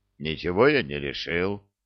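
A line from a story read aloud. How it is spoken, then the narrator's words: Grumbling mutter. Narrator (Russian): пробурчал Гулливер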